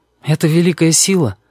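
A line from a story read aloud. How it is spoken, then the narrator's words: Timid. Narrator (Russian): говорит он робко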